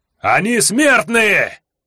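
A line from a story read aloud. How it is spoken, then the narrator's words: Yelled. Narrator (Russian): заорал Жак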